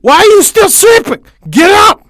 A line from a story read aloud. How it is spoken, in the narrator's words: she shrieked